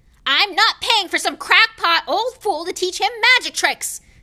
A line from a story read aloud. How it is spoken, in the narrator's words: yelled Uncle Vernon